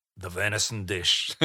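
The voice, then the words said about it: Weak put-on Scottish accent. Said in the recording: “That wasn't a very good Scottish accent, was it? ... Oh, it was okay.”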